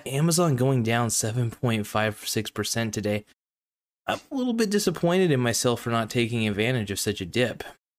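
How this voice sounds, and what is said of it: Voice sounds a bit off. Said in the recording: “My voice is a little bit off today. I don't exactly sound as great as usual.”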